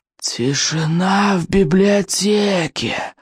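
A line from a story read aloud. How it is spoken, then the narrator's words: Wheezing monster voice. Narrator (Russian): просипело страшилище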